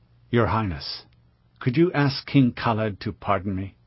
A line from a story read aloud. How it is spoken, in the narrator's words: he asked